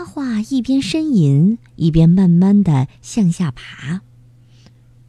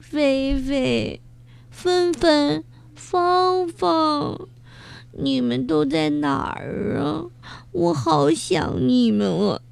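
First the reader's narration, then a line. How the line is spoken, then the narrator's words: Sobbing heartbrokenly. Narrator (Chinese): 他哭得真伤心啊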